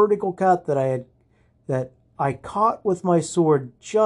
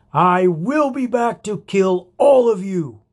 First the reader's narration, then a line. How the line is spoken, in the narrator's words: he screamed